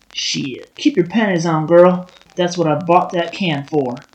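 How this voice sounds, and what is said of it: Exaggerated put-on Southern accent. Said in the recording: “suddenly southern guy ... you've always had a butchered southern accent”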